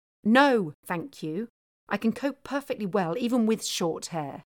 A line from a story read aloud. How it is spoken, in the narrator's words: Sophie snapped back